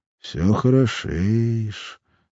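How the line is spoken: Quiet. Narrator (Russian): сказал он негромко

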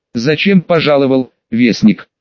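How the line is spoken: Plain question. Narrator (Russian): спросил Угротар

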